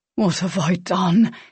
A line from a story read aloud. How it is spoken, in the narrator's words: He whispered